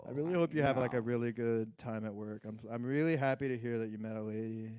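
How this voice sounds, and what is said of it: Exaggerated vocal fry. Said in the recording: “vocal fry ... Should we do a little vocal fry?”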